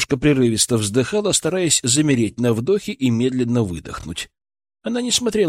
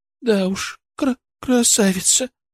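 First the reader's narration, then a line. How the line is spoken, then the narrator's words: Sobbing. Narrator (Russian): всхлипнула она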